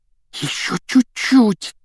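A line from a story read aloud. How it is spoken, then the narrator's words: Breathless exhale. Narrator (Russian): выдохнул Рон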